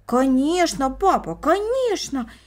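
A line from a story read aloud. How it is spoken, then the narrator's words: Exclaiming in unison. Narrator (Russian): воскликнули брат и сестра в один голос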